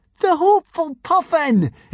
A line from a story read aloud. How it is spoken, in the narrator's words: exclaimed Hiccup joyfully